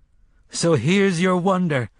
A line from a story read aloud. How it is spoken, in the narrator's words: the man in black called after her, panting